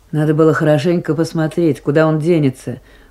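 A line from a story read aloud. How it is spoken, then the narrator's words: Grumbling. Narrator (Russian): пробурчала Майсарат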